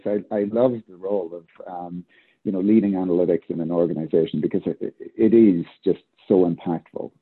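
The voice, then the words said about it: Excited, enthusiastic speaking voice. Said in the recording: “I'm excited, generally. I love, as you can probably tell from my voice”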